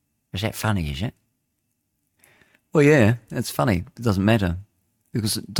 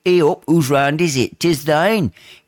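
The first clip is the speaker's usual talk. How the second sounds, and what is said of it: Attempted Yorkshire accent. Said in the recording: “from probably Yorkshire ... is that the right accent? Probably not.”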